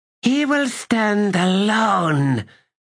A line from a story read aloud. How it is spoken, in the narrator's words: the swordswoman said in a rasp